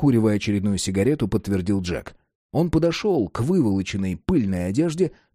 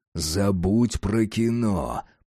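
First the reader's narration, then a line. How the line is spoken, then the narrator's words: Grumbled. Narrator (Russian): проворчал Джек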